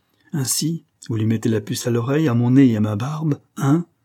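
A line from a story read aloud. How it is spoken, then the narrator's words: Snarling growl. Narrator (French): grogna hargneusement Parr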